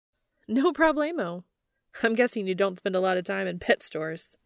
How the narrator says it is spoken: Red chuckles

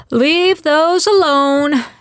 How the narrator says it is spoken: she bellowed as she hurried over

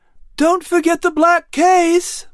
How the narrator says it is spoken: Clary shouted above the wind

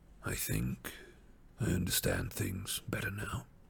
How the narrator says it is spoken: he said in a low voice

